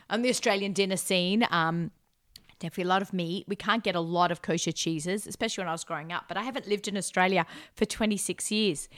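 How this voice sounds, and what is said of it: Australian accent. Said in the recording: “I may have the accent.”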